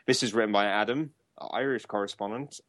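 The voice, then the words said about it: Bad put-on Irish accent. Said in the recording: “God, that was terrible. ... were you trying to do an Irish accent?”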